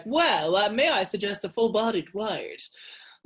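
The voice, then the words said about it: Imitates another person's voice. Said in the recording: “Isn't that a really good impression?”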